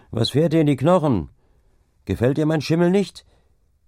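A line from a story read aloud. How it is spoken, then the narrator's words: Called out. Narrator (German): rief der Deichgraf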